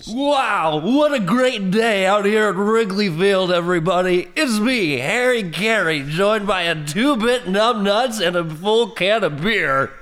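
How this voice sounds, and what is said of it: Harry Caray impression. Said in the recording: “impersonate him”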